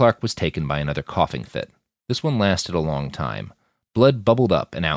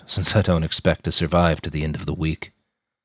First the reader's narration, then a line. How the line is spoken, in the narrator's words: he said with a hollow laugh